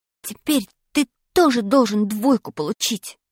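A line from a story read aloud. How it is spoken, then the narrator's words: Whispering. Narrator (Russian): прошептал я Пашке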